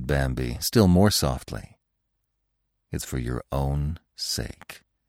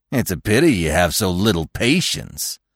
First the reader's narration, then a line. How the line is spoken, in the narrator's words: Rono said with a sneer